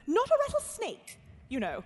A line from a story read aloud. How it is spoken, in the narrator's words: she added hastily